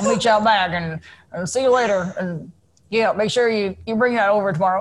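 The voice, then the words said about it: Unfamiliar regional accent, mumbled. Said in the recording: “that is an awesome accent. I have never heard it before ... It's not one of the more glamorous ones in the world ... You hear the first word and then everything becomes a little bit of a mumble”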